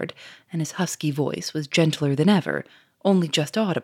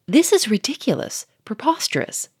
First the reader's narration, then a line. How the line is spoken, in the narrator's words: cried Monsieur Fourmery, beginning to flush